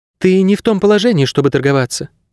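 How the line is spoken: Calm. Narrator (Russian): спокойно ответила она

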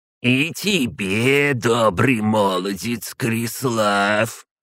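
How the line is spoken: Creaky old witch voice. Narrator (Russian): Скрипучим голосом классической ведьмы проговорила бабка

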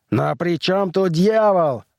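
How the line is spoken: Roaring man. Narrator (Russian): взревел все тот же человек со звездами на плечах

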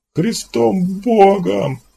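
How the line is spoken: Anguished howl. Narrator (Russian): взвыл Лудицкий

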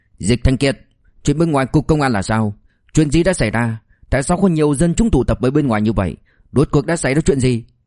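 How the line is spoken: Angry. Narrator (Vietnamese): Liêu Kinh Vũ tức giận nói

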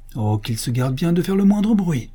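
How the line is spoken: Angry exclamation. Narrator (French): s'écria le musicien avec colère

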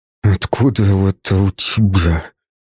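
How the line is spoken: Quiet hiss through teeth. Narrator (Russian): Прошипел я тихо сквозь зубы

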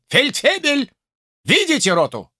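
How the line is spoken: Shout. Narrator (Russian): крикнул

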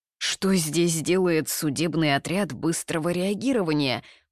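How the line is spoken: Shocked mutter. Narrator (Russian): потрясенно пробормотал Нань Гуадзы

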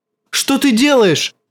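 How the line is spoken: Shouting. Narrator (Russian): закричал он

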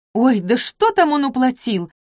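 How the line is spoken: Irritated. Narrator (Russian): раздраженно поморщилась

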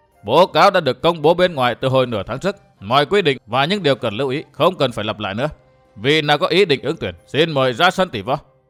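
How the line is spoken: Raised voice. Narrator (Vietnamese): Ngô Thiên Lương đã cao giọng nói

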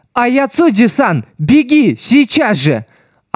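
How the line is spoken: Urgent scream. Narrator (Russian): она закричала

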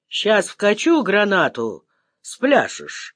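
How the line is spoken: Calm promise, unseen man. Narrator (Russian): спокойно пообещал невидимый хозяин убежища

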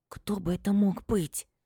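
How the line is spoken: Fearful whisper. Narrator (Russian): Тем же шепотом, словно нас может услышать это нечто, говорю

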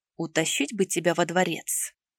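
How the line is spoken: Quiet menacing whisper. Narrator (Russian): Тихонько и очень угрожающе прошептал

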